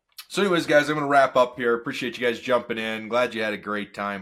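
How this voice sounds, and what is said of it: Rough, strained voice. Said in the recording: “My voice is still all sketchy and crazy.”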